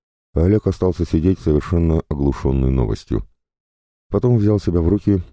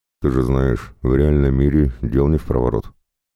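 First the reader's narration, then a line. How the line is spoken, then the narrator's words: Calm despite guilt. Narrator (Russian): Он даже почувствовал себя виноватым, но ответил спокойно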